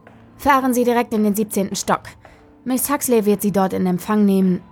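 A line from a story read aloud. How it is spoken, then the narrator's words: Sharp. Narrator (German): sagte er scharf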